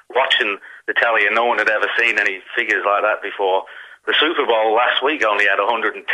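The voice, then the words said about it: Convincing Liverpudlian accent. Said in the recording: “that's a very convincing Liverpudlian accent you've got ... unless you're an actual Liverpudlian ... Unconvinced.”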